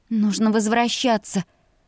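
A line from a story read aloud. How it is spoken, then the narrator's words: Embarrassed hoarse croak. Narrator (Russian): прохрипела я смущенно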